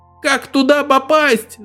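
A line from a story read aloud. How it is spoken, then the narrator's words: Newborn shouting. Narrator (Russian): закричал новорожденный 19, уже исполненный знания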